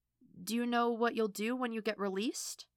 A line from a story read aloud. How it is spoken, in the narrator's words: Alana asks hesitantly